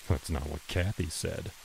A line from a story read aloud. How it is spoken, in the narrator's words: he muttered